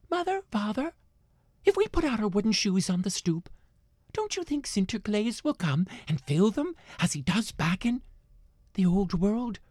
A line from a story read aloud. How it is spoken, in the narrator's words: the children round and about in New Amsterdam begged